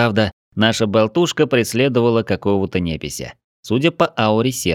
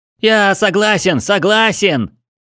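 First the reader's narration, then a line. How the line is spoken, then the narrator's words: Nearly shouting, pleading. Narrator (Russian): Чуть не закричал тот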